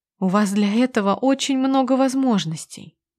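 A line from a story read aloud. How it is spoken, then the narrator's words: Soft. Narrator (Russian): мягко произношу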